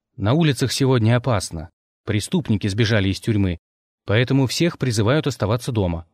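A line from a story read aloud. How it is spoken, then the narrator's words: Plain. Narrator (Russian): ответил я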